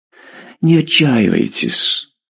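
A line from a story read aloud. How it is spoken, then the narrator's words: Timid, soothing. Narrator (Russian): робко успокаивала его Аня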